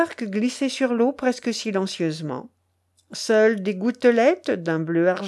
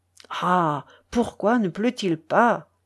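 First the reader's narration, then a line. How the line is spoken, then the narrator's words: Whispered. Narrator (French): chuchota Tchelkash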